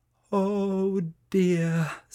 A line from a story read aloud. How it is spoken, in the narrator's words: sighed Francesca